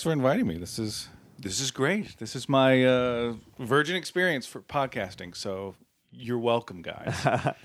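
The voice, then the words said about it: Smooth radio-style voice. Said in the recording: “You have actually a really good radio voice. ... Very smooth.”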